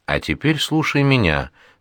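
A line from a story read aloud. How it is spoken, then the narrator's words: Calm. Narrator (Russian): спокойно говорит Ува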